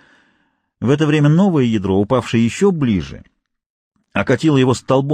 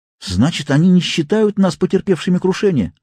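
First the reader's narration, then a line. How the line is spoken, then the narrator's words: Exclaimed. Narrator (Russian): воскликнул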